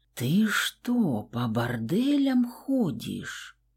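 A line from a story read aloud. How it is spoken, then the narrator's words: Quiet, sepulchral whisper. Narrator (Russian): Тихим, прямо-таки загробным шепотом произнесла я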